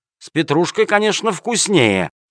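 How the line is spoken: Malicious smirking reply. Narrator (Russian): ответил начальник полиции, зло ухмыляясь

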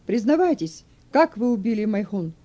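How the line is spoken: Shouting. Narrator (Russian): Судья закричал

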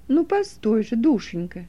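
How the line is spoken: Gentle, affectionate. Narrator (Russian): Ласково остановила ее няня

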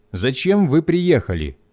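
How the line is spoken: Plain. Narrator (Russian): спросил он

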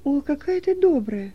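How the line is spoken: Joyful exclamation. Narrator (Russian): радостно воскликнул Стефан

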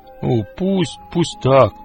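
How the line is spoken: Grumbling. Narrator (Russian): проворчал

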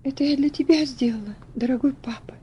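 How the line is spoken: Quiet, trembling voice. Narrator (Russian): сказала она тихим, дрожащим голосом

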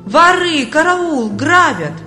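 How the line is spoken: Loud wailing. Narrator (Russian): Бедняга громко завопил

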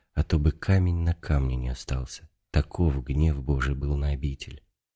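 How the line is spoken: Added with a sigh. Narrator (Russian): вздохнув, прибавил

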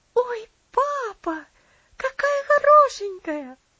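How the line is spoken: Delighted girl's exclamation. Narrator (Russian): воскликнула девочка в восторге

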